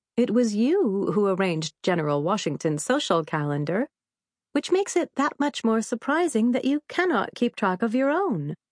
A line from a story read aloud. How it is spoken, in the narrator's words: Eliza said, chuckling